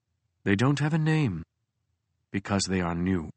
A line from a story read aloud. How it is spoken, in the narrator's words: Gubari said, his voice somber and steely